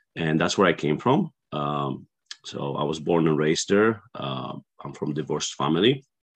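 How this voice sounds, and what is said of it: Polish accent. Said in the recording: “What is this accent I'm hearing? ... the accent is something that I was born with ... a small country in Central Europe Eastern Europe called Poland”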